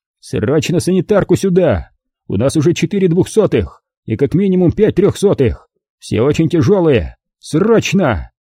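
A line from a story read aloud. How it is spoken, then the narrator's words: Yelling into a radio. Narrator (Russian): Он орал кому-то в микрофон рации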